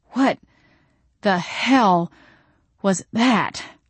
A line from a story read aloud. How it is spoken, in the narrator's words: I wheezed